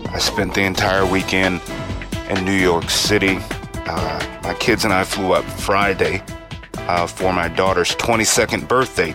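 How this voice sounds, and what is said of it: Hoarse, faded, nearly lost voice. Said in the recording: “My voice is just about gone, so if I sound a little faded, it's because my voice is gone.”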